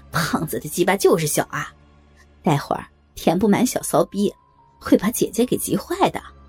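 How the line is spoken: Laughing. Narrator (Chinese): 小伟笑道

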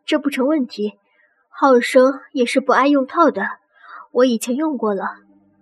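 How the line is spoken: Low voice. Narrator (Chinese): 婉英低声说

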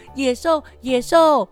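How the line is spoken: Repeated crying out. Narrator (Chinese): 坐在那里叫啊叫

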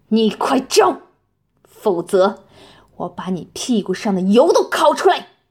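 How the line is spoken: Roaring. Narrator (Chinese): 冷铁心吼道

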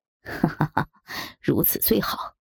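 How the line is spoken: Overjoyed, leering laugh. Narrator (Chinese): 高衙内大喜过望，淫笑道

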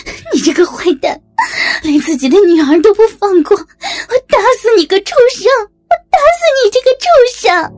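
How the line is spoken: Crying shout. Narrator (Chinese): 小林哭喊着

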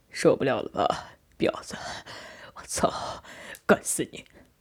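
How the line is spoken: Voice gradually lowering. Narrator (Chinese): 渐渐低声说道

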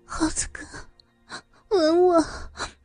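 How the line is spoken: Aroused, breathless. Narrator (Chinese): 他的情欲被撩拨起来，喘息着说

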